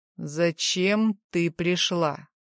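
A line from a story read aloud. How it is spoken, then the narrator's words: Metallic, cold question. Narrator (Russian): металлическим голосом спрашивает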